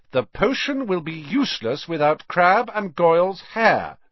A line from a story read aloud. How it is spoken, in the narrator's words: said sternly